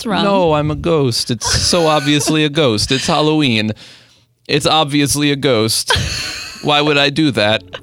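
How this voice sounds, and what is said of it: Timid childlike put-on voice. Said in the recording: “Why do you have this voice? ... I was a timid 14-year-old. ... You sound... Oh, you're doing like a baby voice? I was thinking you're doing like mafia.”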